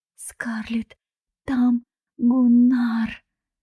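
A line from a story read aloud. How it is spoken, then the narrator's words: Shaking, stammering. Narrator (Russian): Дебби трясло, и она начала заикаться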